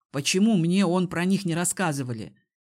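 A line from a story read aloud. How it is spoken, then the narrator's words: Displeased snort. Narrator (Russian): недовольно фыркнул Киран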